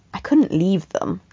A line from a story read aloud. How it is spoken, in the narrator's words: he said, keeping his voice down